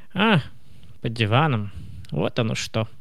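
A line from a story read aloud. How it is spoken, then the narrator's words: Tired old woman speaking. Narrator (Russian): устало проговорила бабушка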